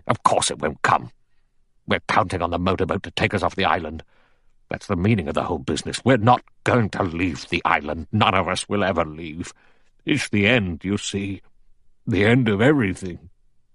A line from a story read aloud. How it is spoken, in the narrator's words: General MacArthur said sharply